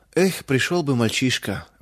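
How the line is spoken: Sigh. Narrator (Russian): вздохнул мельник

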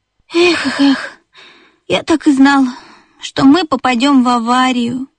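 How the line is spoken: Sighing. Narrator (Russian): вздохнул бип

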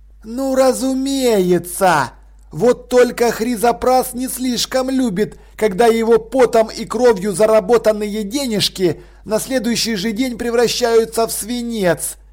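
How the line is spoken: Cheerful. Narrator (Russian): весело заявил Чай-Чай

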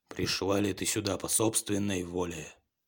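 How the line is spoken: Growling monster asking. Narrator (Russian): рычащее чудовище и спросило ее

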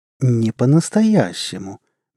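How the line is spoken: Soft insistence. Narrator (Russian): мягко настаивала кошка

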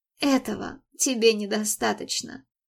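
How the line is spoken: Bitter sigh. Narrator (Russian): горько вздохнула

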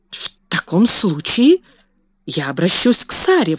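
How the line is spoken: Exclaiming. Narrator (Russian): воскликнула мисс Минчин

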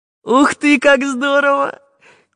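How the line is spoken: Squealing with delight. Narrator (Russian): завизжал Чижик

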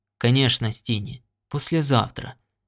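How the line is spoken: Gentle reply. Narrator (Russian): мягко ответил Норт

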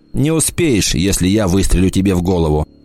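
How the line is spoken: Loud laughter. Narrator (Russian): Он захохотал

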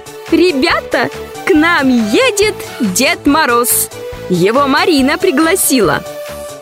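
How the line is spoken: Cheerful sudden announcement. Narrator (Russian): Мама вдруг весело объявила

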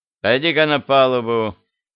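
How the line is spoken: Phlegmatic, curt command. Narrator (Russian): Англичанин флегматично, весьма нелюбезным тоном приказал

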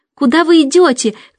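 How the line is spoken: Shouted. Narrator (Russian): крикнула она ей

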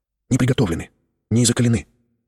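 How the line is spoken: Timid whisper. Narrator (Russian): робко прошептал Тихон

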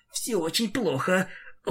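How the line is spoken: Whispering to self. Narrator (Russian): шептал ты себе

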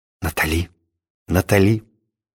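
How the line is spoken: Mumbling. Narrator (Russian): я бормотал

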